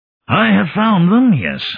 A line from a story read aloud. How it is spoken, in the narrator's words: I said hoarsely